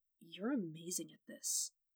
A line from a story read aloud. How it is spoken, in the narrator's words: Matt whispered